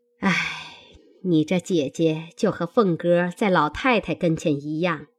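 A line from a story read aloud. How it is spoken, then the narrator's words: Sighing. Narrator (Chinese): 薛姨妈 向黛玉叹道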